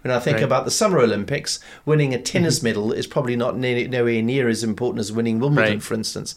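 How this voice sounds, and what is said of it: South African (Durban) accent. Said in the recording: “Forgive ... Durban accent. ... My South African accent.”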